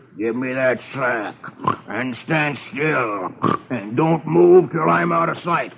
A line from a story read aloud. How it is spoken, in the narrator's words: he growls